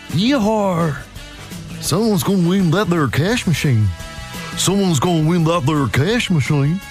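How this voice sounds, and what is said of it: Put-on Southern American cowboy accent. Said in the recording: “the accent? ... it was American ... Southern America ... Yeehaw, that's my American accent ... It's kind of cowboy-esque”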